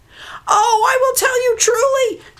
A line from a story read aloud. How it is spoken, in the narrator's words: she cried in fright